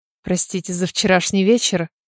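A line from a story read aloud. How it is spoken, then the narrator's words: Barely audible. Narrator (Russian): еле слышно выговорил Хамфри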